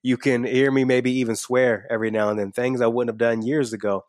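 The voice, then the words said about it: Slight twang in speech. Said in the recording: “You can hear my voice. You can hear a little bit of my twang.”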